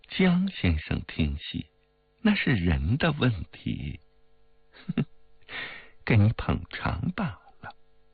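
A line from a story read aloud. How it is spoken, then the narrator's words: Laughing. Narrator (Chinese): 冰如笑道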